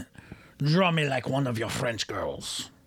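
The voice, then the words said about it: Manly put-on French accent. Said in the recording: “I said that in a French accent ... you sounded really manly”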